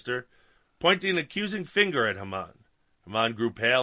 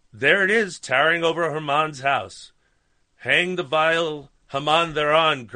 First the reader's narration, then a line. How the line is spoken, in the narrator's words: cried the king